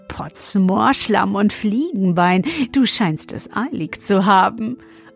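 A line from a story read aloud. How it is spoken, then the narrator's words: Laughing until choking. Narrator (German): er lachte, bis er sich verschluckte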